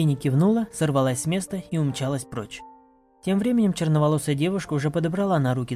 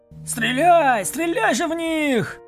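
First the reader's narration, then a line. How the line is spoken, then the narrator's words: Shouting. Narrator (Russian): Прокричал один из противников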